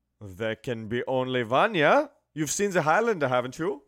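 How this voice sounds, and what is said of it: Put-on German accent. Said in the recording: “Why are you speaking with a German accent?”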